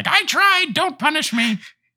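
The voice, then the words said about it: Pleading character voice. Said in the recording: “That was a good impression.”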